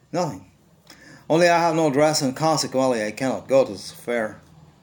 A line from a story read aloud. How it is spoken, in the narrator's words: By a violent effort, she controlled her vexation and responded in a calm voice